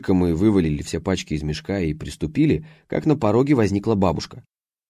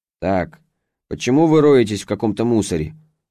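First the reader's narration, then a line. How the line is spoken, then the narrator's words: Stern grandmother. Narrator (Russian): строго произнесла бабушка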